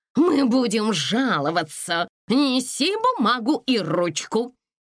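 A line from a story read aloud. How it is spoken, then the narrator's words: Commanding voice. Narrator (Russian): командирским голосом произнес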